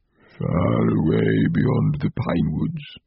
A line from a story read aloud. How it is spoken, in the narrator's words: he answered in a low, dreamy voice